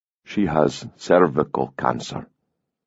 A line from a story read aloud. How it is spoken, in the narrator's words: Sirson said softly